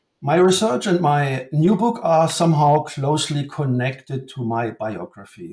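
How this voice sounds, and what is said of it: German accent. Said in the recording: “As you already might have guessed from my accent, I come from Germany.”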